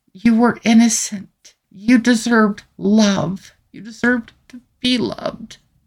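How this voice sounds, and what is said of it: Emotional, strained voice. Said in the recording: “I'm sure you can tell this is more than a little bit emotional for me”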